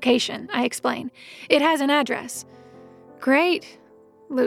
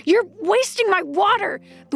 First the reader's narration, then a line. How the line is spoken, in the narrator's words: the woman yells